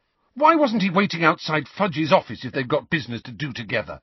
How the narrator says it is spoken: Harry burst out furiously

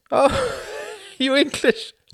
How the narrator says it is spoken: laughed Klaus

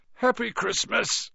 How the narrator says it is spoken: said Ron sleepily

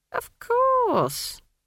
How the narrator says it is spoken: said Granny haughtily

